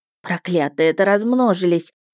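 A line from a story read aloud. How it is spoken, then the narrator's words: Dejected voice. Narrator (Russian): упавшим голосом сказала Вишана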